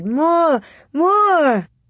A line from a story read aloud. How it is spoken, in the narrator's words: The voices in the storm howled and giggled and shrieked